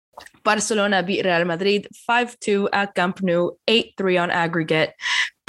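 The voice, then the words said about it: Sick, congested voice. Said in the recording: “sorry for my voice ... I came back from Germany with a very nasty cold”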